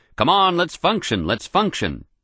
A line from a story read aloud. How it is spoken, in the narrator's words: with a parting bellow